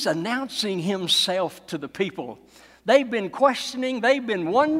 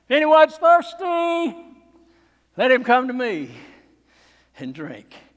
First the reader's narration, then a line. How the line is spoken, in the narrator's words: in the stony silence, he cried out